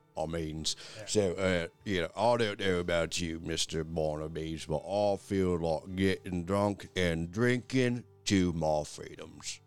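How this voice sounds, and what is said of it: Character voice in a different accent. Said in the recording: “Sorry, different accent.”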